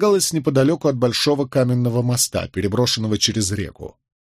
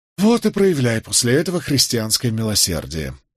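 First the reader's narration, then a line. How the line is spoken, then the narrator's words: Sighed. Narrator (Russian): вздохнул я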